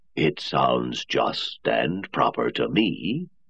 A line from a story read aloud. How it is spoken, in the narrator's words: Lanning said gravely